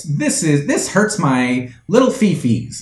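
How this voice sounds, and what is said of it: Baby voice. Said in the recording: “baby voice”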